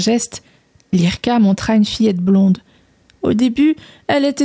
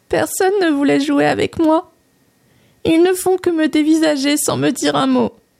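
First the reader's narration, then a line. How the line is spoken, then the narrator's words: Little girl sobbing. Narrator (French): sanglota la petite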